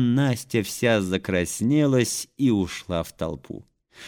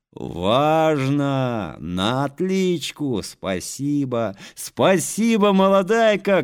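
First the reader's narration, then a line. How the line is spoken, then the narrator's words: Children shouting. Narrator (Russian): кричали ребята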